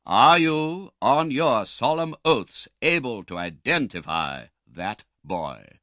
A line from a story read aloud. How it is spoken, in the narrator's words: thundered the doctor